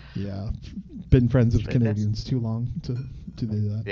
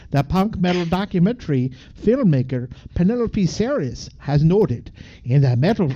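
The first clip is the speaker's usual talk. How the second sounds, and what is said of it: Put-on Canadian accent. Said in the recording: “that was good. That was a good Canadian accent.”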